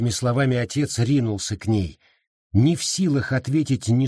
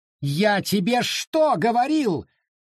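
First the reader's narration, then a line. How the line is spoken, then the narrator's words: Shrill scream. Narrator (Russian): завизжал он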